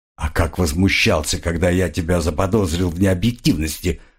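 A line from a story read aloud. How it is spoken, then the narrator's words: Mutter. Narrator (Russian): пробормотал крокодил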